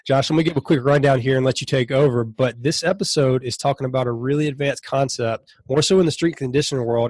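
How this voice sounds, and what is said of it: Sick, congested voice. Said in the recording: “excuse my voice. ... I have a freaking man cold this week.”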